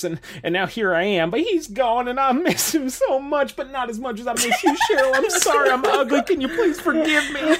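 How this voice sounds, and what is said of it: Put-on Southern US accent. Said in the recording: “I'm not sure why I have a southern accent now.”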